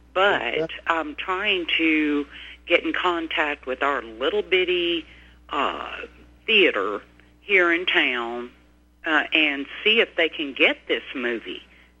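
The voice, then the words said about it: Non-local regional accent. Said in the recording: “I'm not from here. I'm sure you can tell by my accent”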